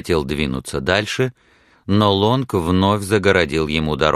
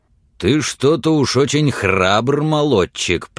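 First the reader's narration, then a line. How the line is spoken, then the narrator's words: Growled. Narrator (Russian): прорычал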